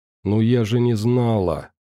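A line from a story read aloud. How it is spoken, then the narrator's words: Dejected, defensive voice. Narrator (Russian): упавшим голосом попыталась оправдаться девушка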